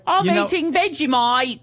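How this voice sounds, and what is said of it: Put-on Australian accent. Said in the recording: “That's my Australian accent.”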